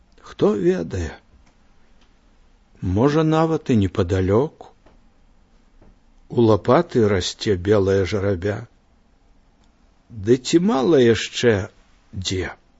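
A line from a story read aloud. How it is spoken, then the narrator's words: Old man, quiet. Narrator (Belarusian): І дзед адказаў таксама ціха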